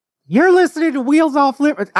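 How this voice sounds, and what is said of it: Imitates another person's voice. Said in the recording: “your Jamie Crane impression”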